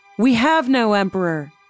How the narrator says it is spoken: the guard shouted back

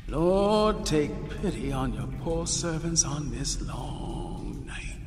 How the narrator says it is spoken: voice echo through the passageway

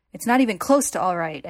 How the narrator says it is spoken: Ed shouts

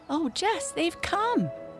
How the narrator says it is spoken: she shouted

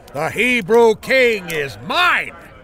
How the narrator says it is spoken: Akish yelled

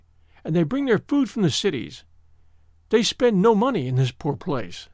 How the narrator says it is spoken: said bitterly

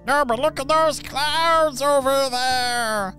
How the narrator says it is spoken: they shouted

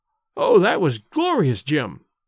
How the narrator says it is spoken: gasped the actress

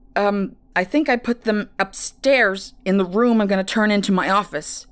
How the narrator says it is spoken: he responded, grunting as they struggled to turn the corner

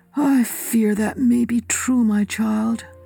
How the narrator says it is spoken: he said sadly

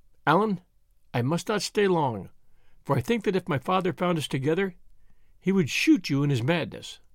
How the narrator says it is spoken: she spoke almost in a whisper, saying

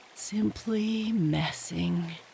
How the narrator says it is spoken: he went on dreamily

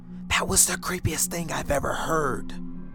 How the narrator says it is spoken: My friend Lily whispered

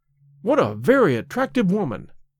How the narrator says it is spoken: I exclaimed

